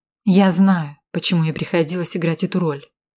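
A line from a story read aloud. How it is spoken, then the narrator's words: Calm reply. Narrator (Russian): спокойно ответила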